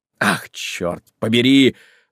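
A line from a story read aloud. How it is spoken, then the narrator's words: Rough exclamation. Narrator (Russian): воскликнул он грубо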